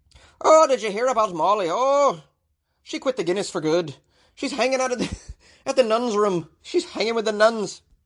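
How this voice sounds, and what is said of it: Put-on Irish accent. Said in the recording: “my pretty amazing Irish accent to kick it off”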